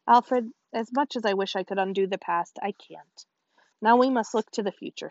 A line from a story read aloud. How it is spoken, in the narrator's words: said Winnie